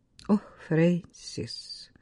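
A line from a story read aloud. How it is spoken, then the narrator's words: Sighing reply. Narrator (Russian): вздохнула Катриона в ответ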